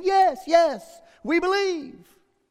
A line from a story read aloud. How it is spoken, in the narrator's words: shouted again